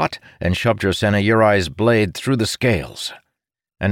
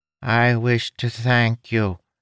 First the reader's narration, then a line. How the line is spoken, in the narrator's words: the Tuladine said in Aishavar's native tongue, in that nasally voice